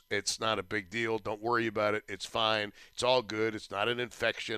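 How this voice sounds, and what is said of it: Scratchy, hoarse voice. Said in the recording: “my voice is a little bit scratchy ... it's just the voice ... the summer cold has decided to settle in my larynx”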